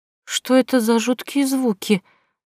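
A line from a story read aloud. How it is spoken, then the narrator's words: Trembling voice. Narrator (Russian): дрожащим голосом произнесла принцесса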